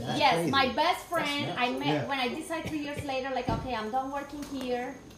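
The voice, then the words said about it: Heavy Spanish-speaker's English accent. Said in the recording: “my pronunciation and my accent is stronger, it's you know, heavy. Like different. ... Like in Spanish”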